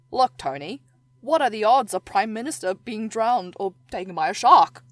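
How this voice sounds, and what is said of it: Attempted Australian accent. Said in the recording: “I'm going to do an Australian accent... I can't.”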